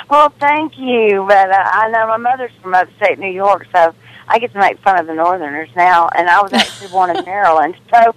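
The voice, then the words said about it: Southern US drawl. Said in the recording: “I love that southern drawl”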